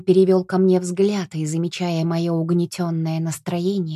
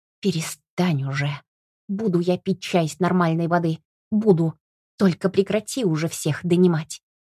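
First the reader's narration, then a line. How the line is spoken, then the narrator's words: Hissed. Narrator (Russian): Я не дала ему договорить, прошипев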